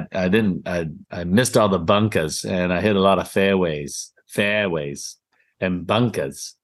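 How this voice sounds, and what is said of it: Put-on New England accent. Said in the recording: “New England accent.”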